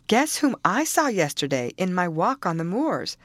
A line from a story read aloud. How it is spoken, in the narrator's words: she exclaimed